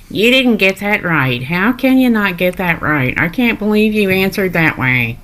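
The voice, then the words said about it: Listener's impression of the show host. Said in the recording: “her impression of Nate”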